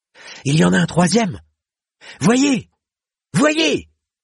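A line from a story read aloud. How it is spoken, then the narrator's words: Piercing cry. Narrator (French): s'écria Kell, et son timbre perçant emplit de sombres futaies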